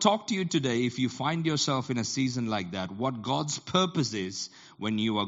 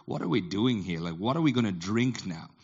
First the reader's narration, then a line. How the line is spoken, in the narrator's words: they grumbled against Moses and said